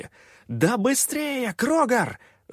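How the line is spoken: Full-voiced yell. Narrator (Russian): заорал я уже в полный голос

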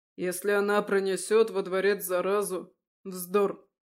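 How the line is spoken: Cold interruption. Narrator (Russian): Холодно прервал его

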